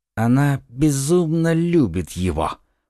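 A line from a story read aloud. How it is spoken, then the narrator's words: Whisper. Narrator (Russian): прошептал он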